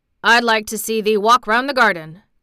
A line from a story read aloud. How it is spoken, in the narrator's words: grunted Ben